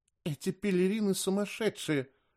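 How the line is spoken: Whispered. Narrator (Russian): шепнула мне Агия

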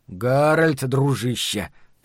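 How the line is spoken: Muttered. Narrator (Russian): пробормотал Ларри

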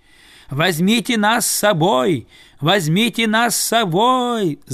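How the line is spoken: Loud wailing. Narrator (Russian): завопили они

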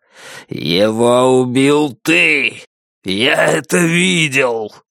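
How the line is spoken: Growl. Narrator (Russian): Джанэй прорычал

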